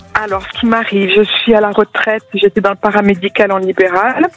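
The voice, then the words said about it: Light Marseille French accent. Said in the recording (French): “Oh, quel joli accent, Marseille ... Un léger que j'adore ... Un petit peu léger”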